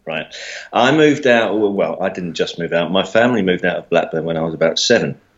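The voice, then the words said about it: Southern English mockney accent. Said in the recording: “you were born in the south of England, I'm assuming, with that accent ... Despite my mockney accent”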